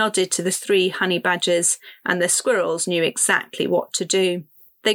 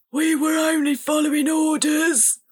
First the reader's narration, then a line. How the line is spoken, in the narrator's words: Gritsky said, his voice muffled inside the barrel